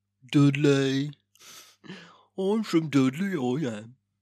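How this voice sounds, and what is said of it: Dudley Black Country accent. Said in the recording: “a Dudley accent ... a perfect demonstration”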